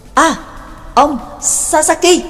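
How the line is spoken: Sudden loud call. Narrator (Vietnamese): sực nhớ ra lớn tiếng gọi

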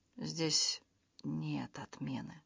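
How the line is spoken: Quiet. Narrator (Russian): тихо сказал

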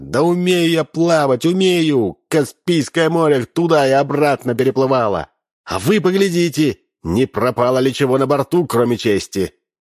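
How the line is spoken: Shouting. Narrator (Russian): кричала

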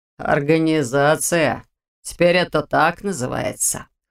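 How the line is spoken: Snort. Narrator (Russian): хмыкнул он

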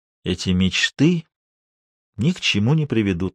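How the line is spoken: Sighing. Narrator (Russian): вздохнул он

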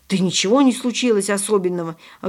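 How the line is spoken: Snapping retort. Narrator (Russian): огрызнулся

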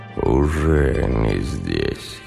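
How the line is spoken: Hoarse. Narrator (Russian): хрипло произнес

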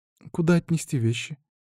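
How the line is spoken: Timid question. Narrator (Russian): Робко поинтересовалась она у меня

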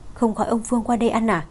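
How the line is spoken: Whisper. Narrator (Vietnamese): Cô thì thầm với Phương Tinh Nghị

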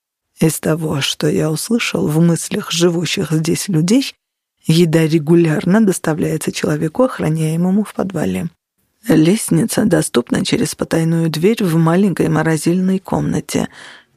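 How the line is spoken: Whisper. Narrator (Russian): прошептал Криспин

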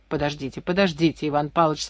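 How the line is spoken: Calm. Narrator (Russian): спокойно сказал Комаров

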